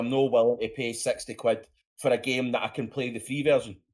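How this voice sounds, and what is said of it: Scottish accent. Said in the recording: “Scottish accents are sexy ... your accent drives the ladies wild and the men ... your Scottishness”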